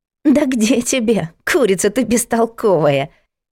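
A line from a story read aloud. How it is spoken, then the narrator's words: Mocking laughter. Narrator (Russian): Издевательски расхохоталась Машка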